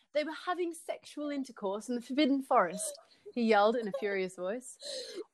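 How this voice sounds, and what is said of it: Put-on British accent. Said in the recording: “Sorry, I meant to be doing a British accent.”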